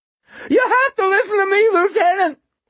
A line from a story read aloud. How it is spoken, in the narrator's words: he yelped